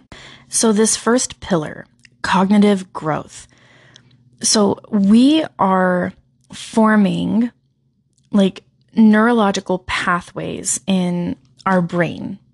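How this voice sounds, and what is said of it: Scratchy, strained hoarse voice. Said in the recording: “I am feeling a little under the weather today, and I hear it in my own voice... a pretty serious sore throat today... some disruption in my voice... some of that scratch come through the microphone”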